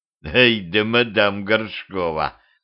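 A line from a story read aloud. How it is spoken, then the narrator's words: Skeptical hum. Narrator (Russian): хмыкнул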